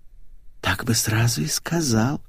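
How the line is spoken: Whisper. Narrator (Russian): прошептала Светик

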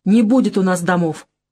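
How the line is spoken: Irritated. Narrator (Russian): раздраженно сказал

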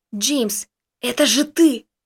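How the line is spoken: Excited exclamation. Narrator (Russian): воскликнул Костик

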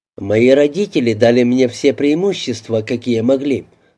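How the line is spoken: Dry remark. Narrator (Russian): сухо обронил Алин

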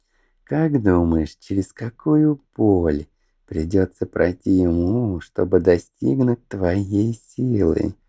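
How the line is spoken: Nasty giggle. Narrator (Russian): Гадко хихикнул Марквин

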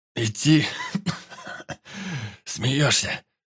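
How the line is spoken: Short laugh, then coughing. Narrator (Russian): хохотнул Кольцов, закашлялся

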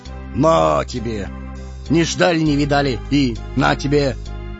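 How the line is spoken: Hoarse drawl. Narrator (Russian): Барон протянул хрипло

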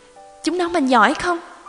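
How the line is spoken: Tearful sniffling question. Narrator (Vietnamese): Mẹ tôi sụt sùi hỏi

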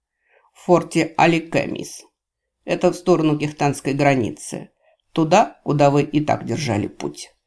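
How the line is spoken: Snide, gleeful remark. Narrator (Russian): ехидно сообщил, радуясь кривой ухмылке девушки, словно ребенок новой игрушки

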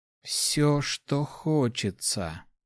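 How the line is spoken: Whispered, young woman. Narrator (Russian): прошептала девушка

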